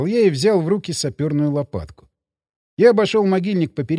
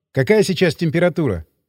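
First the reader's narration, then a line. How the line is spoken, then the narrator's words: Plain. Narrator (Russian): спросил я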